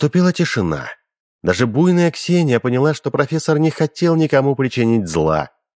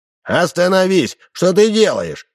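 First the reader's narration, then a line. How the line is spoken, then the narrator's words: Shout. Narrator (Russian): крикнул Удалов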